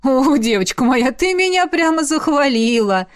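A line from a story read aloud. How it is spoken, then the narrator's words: Laughing loudly. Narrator (Russian): расхохоталась она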